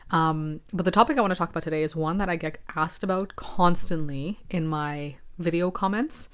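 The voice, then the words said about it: Raspy voice. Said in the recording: “excuse my voice, I'm going through some sort of allergy thing here, and I'll probably be coughing a bit throughout this episode. My voice will be very raspy.”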